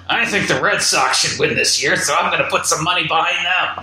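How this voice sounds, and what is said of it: Imitates another person's voice. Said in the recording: “terrible Harvey Weinstein imitation”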